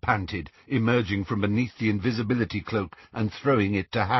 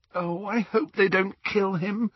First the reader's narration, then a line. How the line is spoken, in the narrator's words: groaned Hermione